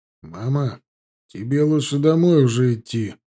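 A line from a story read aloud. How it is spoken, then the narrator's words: Gloomy statement. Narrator (Russian): мрачно сообщил матери Руслан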